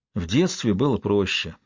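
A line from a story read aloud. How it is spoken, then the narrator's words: Sighing. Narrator (Russian): вздохнул Кевин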